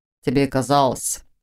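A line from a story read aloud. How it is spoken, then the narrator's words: Scoffing grunt. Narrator (Russian): хмыкнул он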